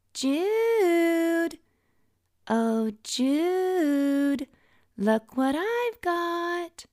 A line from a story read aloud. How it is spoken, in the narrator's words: She taunts